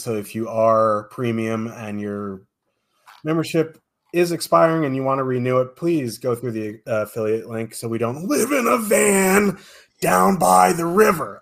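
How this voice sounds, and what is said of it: Messed-up, rough voice. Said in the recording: “my voice is all messed up, so I can sound like Chris Farley”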